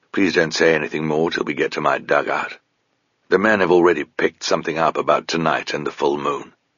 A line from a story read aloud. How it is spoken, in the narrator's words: More softly, he added